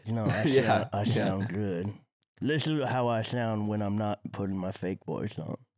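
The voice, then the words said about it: Congested, nasal voice. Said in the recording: “You sound like shit... I had a cold... sound a little... nose... Congested.”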